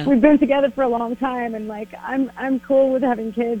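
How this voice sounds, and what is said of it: Choked-up, emotional voice. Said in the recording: “I'm actually getting a little choked up”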